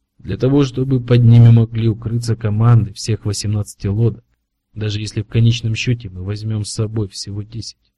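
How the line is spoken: Quiet. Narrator (Russian): негромко сказал он

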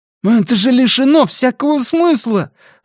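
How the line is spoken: Exclamation. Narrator (Russian): воскликнул Эймс

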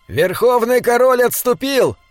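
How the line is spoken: Shouted. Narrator (Russian): закричал Диорнот

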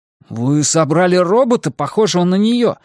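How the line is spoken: Indignant. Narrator (Russian): возмущенно сказал Исмаэль

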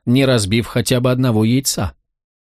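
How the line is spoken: Conciliatory remark. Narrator (Russian): примирительным тоном заметил он

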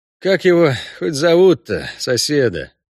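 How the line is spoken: Resigned sigh. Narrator (Russian): вздохнул Геральт, готовый к любым невзгодам мероприятия на 1000 душ

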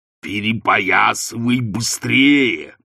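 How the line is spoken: Growling. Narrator (Russian): прорычал он

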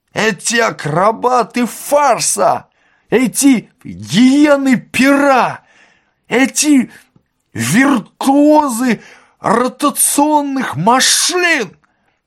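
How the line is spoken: Shouting. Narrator (Russian): кричал он

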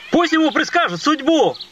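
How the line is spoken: Reporter calling out. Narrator (Russian): выкрикнул один из репортеров

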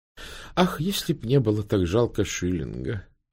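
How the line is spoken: Sighing. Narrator (Russian): вздохнула мисс Палмер

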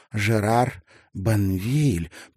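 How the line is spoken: Drawling. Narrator (Russian): протянула она

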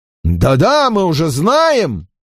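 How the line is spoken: Shouting. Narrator (Russian): закричал генерал Перпоньер

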